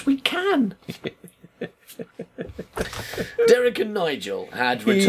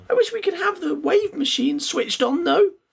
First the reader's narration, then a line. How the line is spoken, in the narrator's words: spluttered Sara